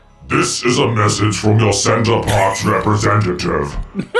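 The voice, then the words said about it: Robot voice. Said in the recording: “do a robot voice”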